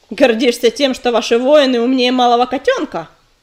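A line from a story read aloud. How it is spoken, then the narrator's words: Roaring bark. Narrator (Russian): рявкнул ураган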